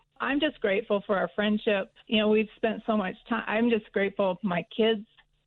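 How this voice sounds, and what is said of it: Choked-up, emotional voice. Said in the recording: “get choked up”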